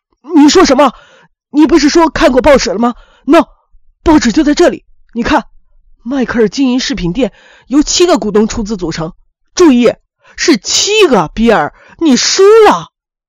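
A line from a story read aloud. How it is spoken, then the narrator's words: Stunned, then shouting. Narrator (Chinese): 亨利呆住了，愣了半晌才反应过来，冲着比尔嚷起来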